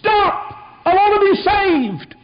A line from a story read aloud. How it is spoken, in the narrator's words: people shout